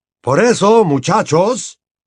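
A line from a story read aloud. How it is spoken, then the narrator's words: Shouted over uproar. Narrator (Spanish): gritó el señor Weasley para hacerse oír por encima del tumulto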